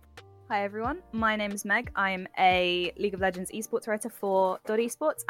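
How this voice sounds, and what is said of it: European accent. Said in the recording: “as you can probably tell by my accent, I am the European representative”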